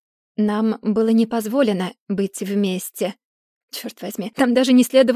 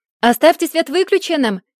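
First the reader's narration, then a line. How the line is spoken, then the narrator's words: Shouted. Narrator (Russian): крикнул кто-то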